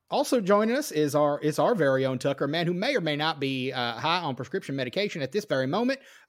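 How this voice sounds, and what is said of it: Put-on accent. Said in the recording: “that's about it for the accent tonight. I did kind of want to see how long I could keep that up”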